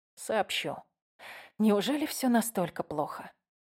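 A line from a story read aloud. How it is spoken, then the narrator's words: Whisper. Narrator (Russian): Шепотом произнесла она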